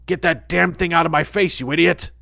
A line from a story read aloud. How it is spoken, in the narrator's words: He grunts